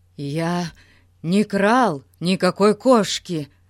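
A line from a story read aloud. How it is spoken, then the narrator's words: Forced out. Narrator (Russian): выдавил он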